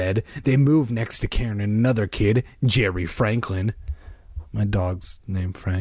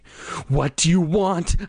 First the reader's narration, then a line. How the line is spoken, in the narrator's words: I screamed in a voice I didn't even recognize